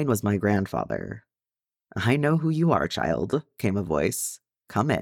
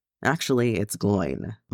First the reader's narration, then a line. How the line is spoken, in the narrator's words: mumbled Gimli